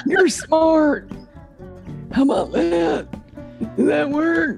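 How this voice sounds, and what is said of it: Imitates another person's voice. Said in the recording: “my Bill Clinton impression”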